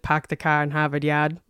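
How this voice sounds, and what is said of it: Terrible put-on Boston accent. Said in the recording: “it's a terrible Boston accent”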